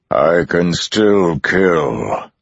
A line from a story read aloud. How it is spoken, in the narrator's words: the Dark One bellowed